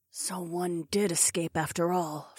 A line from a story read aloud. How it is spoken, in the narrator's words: Fila muttered